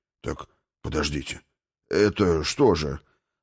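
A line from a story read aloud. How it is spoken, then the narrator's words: Mumbling, cut off. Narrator (Russian): Забормотал было гном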